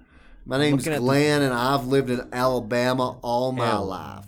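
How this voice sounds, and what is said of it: Put-on Southern US accent. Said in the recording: “obviously you have a southern accent.”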